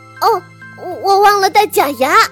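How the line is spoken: Nervous frantic shouting. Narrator (Chinese): 神经质的大喊大叫

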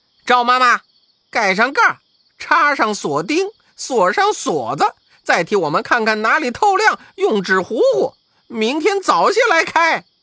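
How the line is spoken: Calling from inside cabinet. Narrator (Chinese): 悟空也进到柜子里叫

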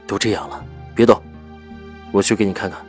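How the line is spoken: Frowning, low grave voice. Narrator (Chinese): 赵以静蹙了蹙眉，沉声道

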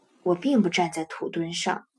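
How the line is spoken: Awkward quiet voice. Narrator (Chinese): 很为难的小声说

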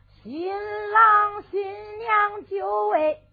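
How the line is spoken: Shouting. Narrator (Chinese): 李相就喊了

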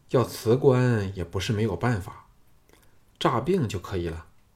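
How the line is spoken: Sighing. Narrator (Chinese): 项少龙陪他叹了一口气，说

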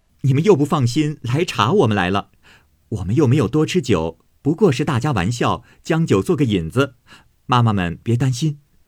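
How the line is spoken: Hasty laugh. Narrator (Chinese): 探春忙笑道

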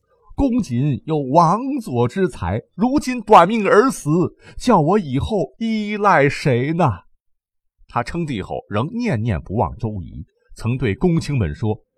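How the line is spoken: Weeping, grief-stricken. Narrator (Chinese): 直到周瑜去世，孙权当时是痛哭流涕地说

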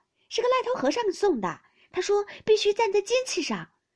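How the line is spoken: Laughing baby. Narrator (Chinese): 婴儿笑道

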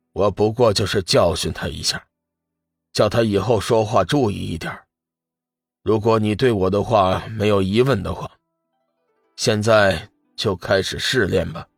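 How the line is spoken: Calm, indifferent. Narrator (Chinese): 界神淡淡的说道

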